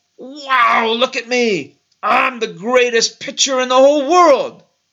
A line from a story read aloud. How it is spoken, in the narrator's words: yelled out